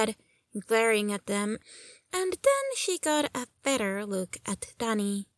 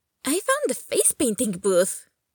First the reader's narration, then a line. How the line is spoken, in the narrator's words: Danny said cheerfully